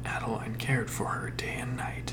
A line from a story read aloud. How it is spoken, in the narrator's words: he whispered into the darkness